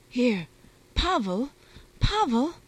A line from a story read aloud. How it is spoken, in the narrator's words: Pelagia Ivanovna cried, rousing her husband from a nap